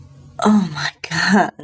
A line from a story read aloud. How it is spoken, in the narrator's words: I gasped as his lips closed over one and then the other nipple